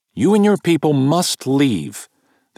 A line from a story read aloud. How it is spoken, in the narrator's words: the captain tells, loudly